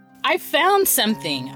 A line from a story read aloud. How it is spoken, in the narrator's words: Aristea yelled